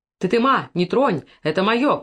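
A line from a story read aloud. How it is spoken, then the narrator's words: Shouted. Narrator (Russian): крикнул Макар Алешке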